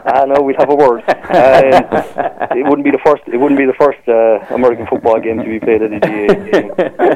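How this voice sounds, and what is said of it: Cork Irish accent. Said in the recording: “You can tell by the accent why you'd love to see it played in Cork.”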